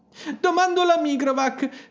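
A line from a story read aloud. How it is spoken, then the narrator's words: Sobbed. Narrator (Italian): singhiozzò Gerodet 1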